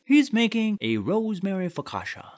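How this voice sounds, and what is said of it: Poor attempt at British accent. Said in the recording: “Is that what you think British people sound like? ... I'm not great at accents ... most of them end up eventually turning into Christopher Walken”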